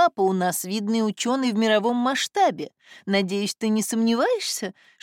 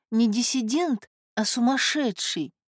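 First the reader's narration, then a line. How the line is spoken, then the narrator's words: Whisper. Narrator (Russian): прошептала она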